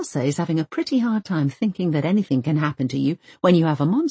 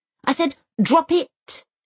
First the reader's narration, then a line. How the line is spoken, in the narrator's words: Elsa snaps at both of them